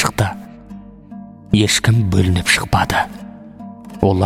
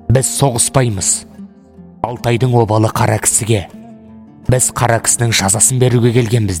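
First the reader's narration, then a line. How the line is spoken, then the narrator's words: Shouting. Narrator (Kazakh): деп айқайлайды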